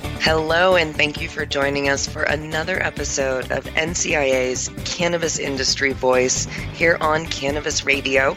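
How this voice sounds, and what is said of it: Slightly hoarse, fading voice. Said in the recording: “you can probably hear I'm losing my voice ... losing my voice a little bit”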